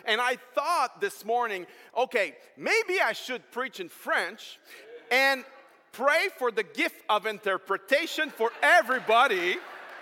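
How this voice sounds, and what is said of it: French accent speaking English. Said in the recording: “I apologize for my accent, okay? I'm French, so English is second language for me.”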